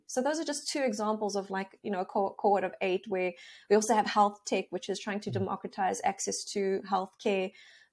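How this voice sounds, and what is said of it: Lilting South African accent. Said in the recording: “somebody from South Africa. They sound so sophisticated with that wonderful accent... that lilting voice that's different than the English or Australian accent... a little more refined”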